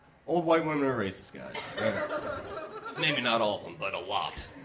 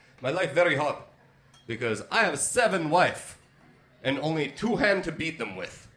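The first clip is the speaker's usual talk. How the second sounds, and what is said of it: Put-on Middle Eastern accent. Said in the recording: “going to do an impression of a Middle Eastern terrorist ... It's harder for me. I don't have tonsils. I can't get throaty.”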